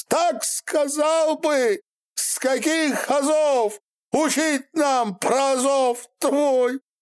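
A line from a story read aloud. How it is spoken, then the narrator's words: Sobbing. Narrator (Russian): Рыдал Куприян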